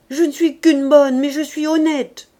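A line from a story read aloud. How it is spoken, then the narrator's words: Shouting with last strength. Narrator (French): criait-elle, en mettant à ce cri ses dernières forces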